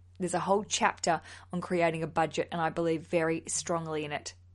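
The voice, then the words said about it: Exaggerated serious voice. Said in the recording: “Very serious voice I'm doing right now.”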